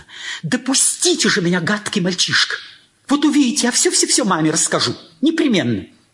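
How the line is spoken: Sudden angry exclamation. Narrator (Russian): воскликнула неожиданно сердито

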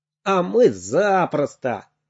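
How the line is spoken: Laughing. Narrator (Russian): засмеялся Сережа

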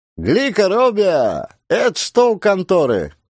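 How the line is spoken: Shout. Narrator (Russian): крикнул Ермошка

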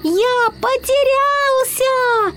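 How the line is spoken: Shouting with full force. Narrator (Russian): Изо всех сил закричал он

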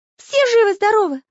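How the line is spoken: Anxious question. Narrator (Russian): оглядываясь взволнованно, спросил Карандаш

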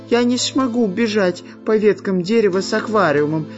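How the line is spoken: Whining. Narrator (Russian): стал скулить шпион Дырка

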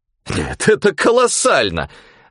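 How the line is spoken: Exclaimed, professor. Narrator (Russian): воскликнул профессор

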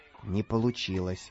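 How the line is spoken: Whisper. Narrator (Russian): шепнул Самоделкину Карандаш

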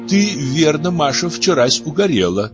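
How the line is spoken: Plain. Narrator (Russian): сказала Прасковья Петровна

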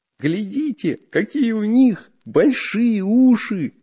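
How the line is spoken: Laughing. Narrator (Russian): засмеялся Бабучка

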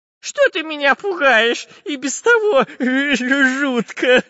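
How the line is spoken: Whimpering. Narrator (Russian): Захныкал Дырка

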